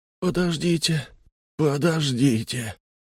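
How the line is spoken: Moaning. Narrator (Russian): простонали из каюты

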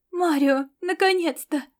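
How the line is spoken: Breathless exhale. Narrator (Russian): выдохнула запыхавшаяся Фаустина

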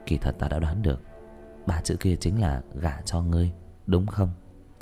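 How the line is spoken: Whispered in ear. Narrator (Vietnamese): Diệp Thiếu Dương môi thì thầm vào tai nàng

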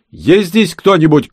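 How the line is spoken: Shout echoing in empty rooms. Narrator (Russian): крикнул он, и эхо заметалось по пустынным помещениям

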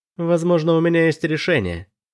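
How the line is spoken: Plain. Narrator (Russian): сказала она

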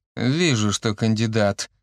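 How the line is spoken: Restrained snort. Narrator (Russian): сдержанно фыркнул Евген

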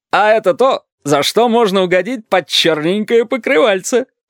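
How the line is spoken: Chuckle. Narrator (Russian): хохотнул красный шар

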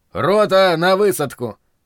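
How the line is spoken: Dashing commanding bark. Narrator (Russian): молодецки гаркнул я, надеясь, что это похоже на приказ

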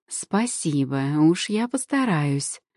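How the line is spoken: Purring. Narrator (Russian): промурлыкала Жасмин

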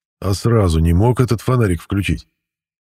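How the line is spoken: Snorting. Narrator (Russian): хмыкнул Матвей

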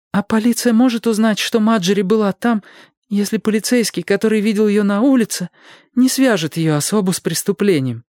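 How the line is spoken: Timid babble. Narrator (Russian): пролепетала Тельма Белл

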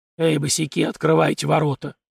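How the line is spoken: Hoarse demand. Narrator (Russian): хриплым голосом потребовал коренастый

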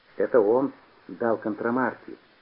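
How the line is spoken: Whispered. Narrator (Russian): шепнул Петя

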